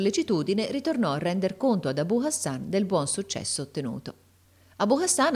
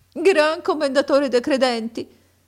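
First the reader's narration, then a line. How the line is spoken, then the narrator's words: Sobbing and sighing. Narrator (Italian): rispose Abu Hassan con singhiozzi e reiterati sospiri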